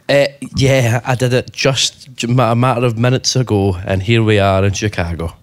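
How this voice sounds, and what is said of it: Out of breath, breathless speech. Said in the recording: “I do run really fast, and that's why I'm sweating and as quite as out of breath as I am”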